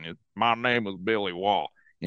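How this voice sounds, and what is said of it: Imitated Southern accent. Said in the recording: “he's got this real Southern accent.”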